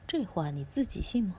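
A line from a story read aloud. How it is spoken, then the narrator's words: Cold sneer. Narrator (Chinese): 兰索冷笑一声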